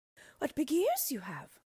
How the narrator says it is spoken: she exclaimed wonderingly

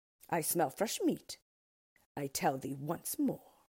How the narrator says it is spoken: replied the Orc crossly

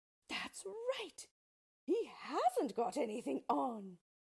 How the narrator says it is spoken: the people all shouted

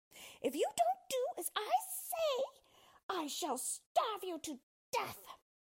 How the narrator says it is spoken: jumped back to a safer distance and shouted at him

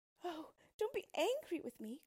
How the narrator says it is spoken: cried the princess

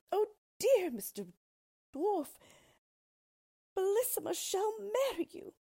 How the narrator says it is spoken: At this dreadful sight, the poor queen, who was trembling like a dove when it sees a hawk, cried out as loud as she could

